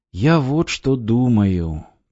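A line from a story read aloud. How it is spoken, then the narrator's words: Sad. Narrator (Russian): печально сказал Петрович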